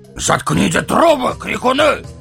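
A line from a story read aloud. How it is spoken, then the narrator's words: Barking shout. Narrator (Russian): гаркнул он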